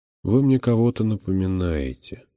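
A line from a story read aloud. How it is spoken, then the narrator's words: Quiet. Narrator (Russian): сказал он тихо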